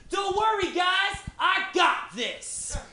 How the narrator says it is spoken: older frat guy and he literally yells out

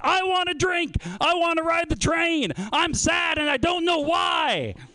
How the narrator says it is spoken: while he screams

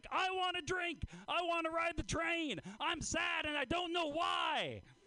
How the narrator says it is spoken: screams

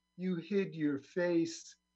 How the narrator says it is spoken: said

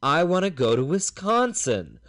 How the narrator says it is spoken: almost in a temper tantrum voice

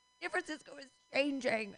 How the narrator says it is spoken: laughed

